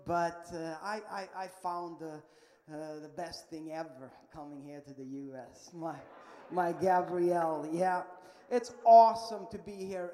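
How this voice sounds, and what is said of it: Swedish accent. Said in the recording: “there's something wrong with my accent. I know that. And if you don't understand what I'm saying ... I am from Sweden”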